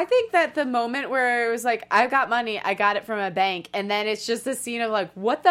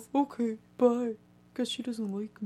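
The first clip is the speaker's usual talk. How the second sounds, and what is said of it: Impression of Roy. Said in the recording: “Great impression.”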